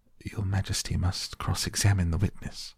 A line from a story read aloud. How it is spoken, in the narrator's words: the White Rabbit, who said in a low voice